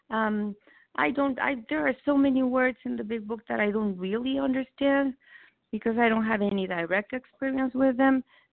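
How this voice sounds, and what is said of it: Non-native English accent. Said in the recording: “English is not my first language. People get really impatient and frustrated with my accent.”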